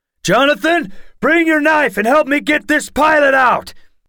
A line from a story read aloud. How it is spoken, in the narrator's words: Grandpa Wright shouted